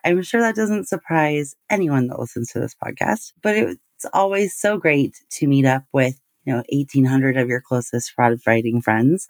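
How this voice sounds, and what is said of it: Voice sounds a little different. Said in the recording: “my voice sounds a little different ... I talked a lot while I was there”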